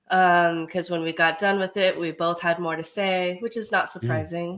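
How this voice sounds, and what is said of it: Slightly crackly, recovering voice. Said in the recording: “My voice is still a little bit recovering from being sick ... if my voice is a little crackly”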